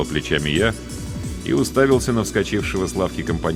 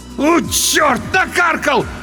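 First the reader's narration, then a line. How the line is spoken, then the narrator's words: Loud howl. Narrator (Russian): в голос взвыл тот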